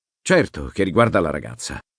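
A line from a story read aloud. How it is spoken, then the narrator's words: Irritated outburst. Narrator (Italian): sbottò Tessolar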